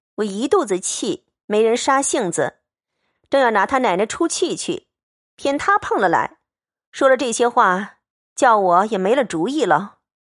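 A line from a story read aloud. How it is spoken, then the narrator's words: Laughing. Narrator (Chinese): 探春笑道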